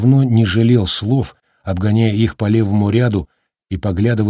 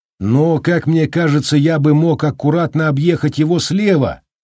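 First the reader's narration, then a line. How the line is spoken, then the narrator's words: Shouted in reply. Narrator (Russian): крикнул в ответ Холлоран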